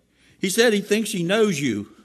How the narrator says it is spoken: The old man yelled

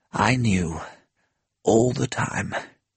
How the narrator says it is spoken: he replied tenderly

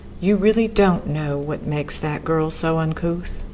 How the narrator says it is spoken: she sighed

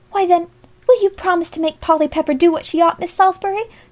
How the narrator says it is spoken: cried Alexia, quite enchanted with her success thus far

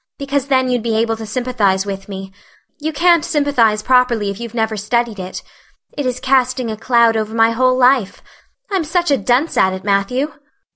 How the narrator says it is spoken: sighed Anne

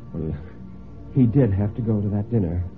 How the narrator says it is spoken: Mary said rather feebly, he thought

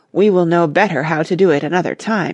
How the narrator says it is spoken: he sighed

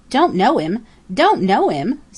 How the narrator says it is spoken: sputtered Jenny

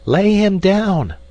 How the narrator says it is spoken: called out a woman from the crowd

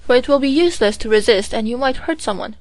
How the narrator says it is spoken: exclaimed General Guff earnestly

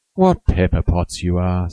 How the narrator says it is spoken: sighed Joe

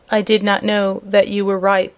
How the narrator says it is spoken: answered the prince in a low voice

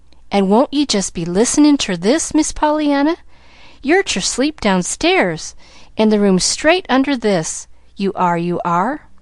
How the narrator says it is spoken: she cried joyously

